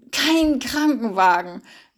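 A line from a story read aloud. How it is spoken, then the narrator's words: Gasping. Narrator (German): japste er hinter ihr her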